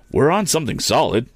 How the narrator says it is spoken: he cried

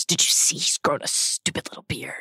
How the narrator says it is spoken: Hermione, still blushing, still pink, and Ron red, turns to Harry and mutters

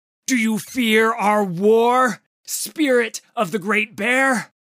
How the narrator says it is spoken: Udyr screamed at the monster

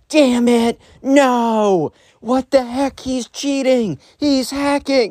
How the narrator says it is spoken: this kid is screaming at the top of his lungs

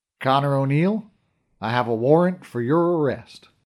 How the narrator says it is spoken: The first thing he ever said to me, in that out-of-place southern drawl of his, was

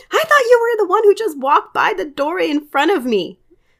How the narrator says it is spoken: I drop my fork and scream

